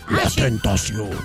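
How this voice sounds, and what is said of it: Announcer voice. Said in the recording (Spanish): “Tienes que decir así con voz de locutor.”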